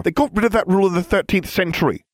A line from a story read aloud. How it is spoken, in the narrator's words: she said sharply, struggling to hide her disappointment